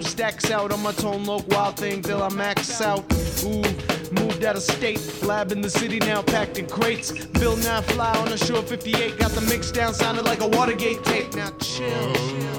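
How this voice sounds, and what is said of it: Rapping in an American accent. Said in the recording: “You sound like an American.”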